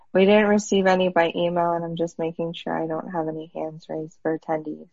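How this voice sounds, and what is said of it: Hoarse, fading voice. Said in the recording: “I'm like losing my voice today.”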